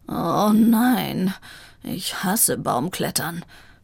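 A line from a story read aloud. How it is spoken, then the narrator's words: Groaning. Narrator (German): stöhnte Vivaldi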